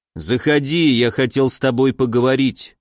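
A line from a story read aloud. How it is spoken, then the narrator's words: Plain. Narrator (Russian): сказал Уральский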